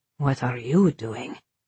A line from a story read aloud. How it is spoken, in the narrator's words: he whispered back